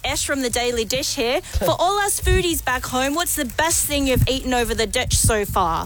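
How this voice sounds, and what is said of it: Put-on New Zealand accent. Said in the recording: “I'm trying to work out why that was a New Zealand accent.”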